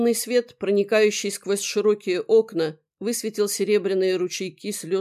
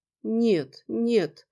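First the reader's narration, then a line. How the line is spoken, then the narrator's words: Sad. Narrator (Russian): печально сказала она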